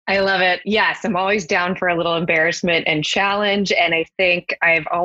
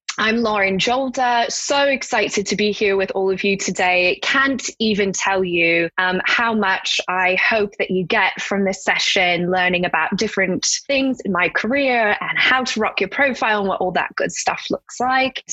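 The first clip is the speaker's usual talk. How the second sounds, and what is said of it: Put-on British accent. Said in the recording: “my British goes something like this ... my British is my strongest one”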